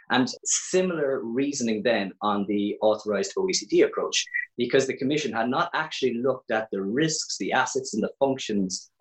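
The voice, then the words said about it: Irish accent, Cork. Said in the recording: “you can probably tell from my accent, I'm from Ireland. I'm actually from Cork”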